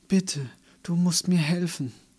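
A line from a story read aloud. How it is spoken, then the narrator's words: Pleading. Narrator (German): flehte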